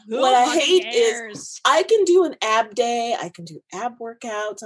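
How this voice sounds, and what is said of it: Loud yelling, ranting. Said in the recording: “I'm sorry, I'm yelling ... It's a rant.”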